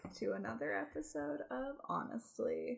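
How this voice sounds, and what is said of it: Calm public radio announcer voice. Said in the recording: “doing an NPR voice ... act like I'm on NPR”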